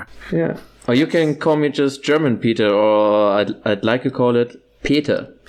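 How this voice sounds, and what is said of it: German-accented English. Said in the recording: “Your accent is awesome. ... Your accent's great.”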